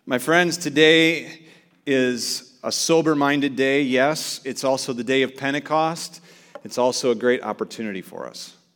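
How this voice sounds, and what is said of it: Hoarse, strained voice. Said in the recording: “lost my voice, ... Shouting.”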